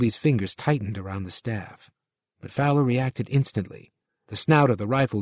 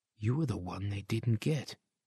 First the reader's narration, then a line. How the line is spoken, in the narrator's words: he said softly